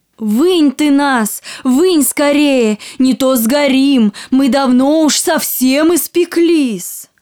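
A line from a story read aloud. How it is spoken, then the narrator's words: Shouting loaves of bread. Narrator (Russian): закричали ей хлебы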